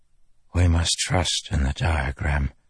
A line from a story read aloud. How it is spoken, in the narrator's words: Terabangian whispered as he passed by them